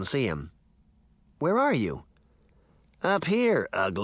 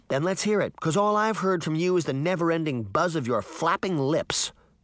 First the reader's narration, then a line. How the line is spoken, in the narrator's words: Sabrina snapped